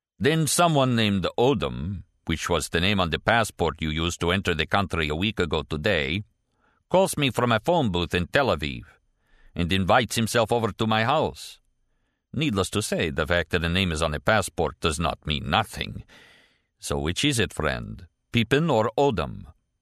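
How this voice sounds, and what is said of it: Heavy, throaty Russian accent. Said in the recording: “his heavy Russian accent surfacing indolently from the depths of his throat”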